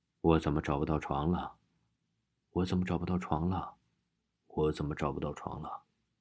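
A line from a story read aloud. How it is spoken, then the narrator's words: Muttering while circling. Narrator (Chinese): 一边转一边嘀咕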